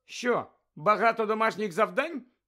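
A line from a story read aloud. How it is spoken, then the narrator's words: Cheerful question. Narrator (Ukrainian): весело поцікавилася Герміона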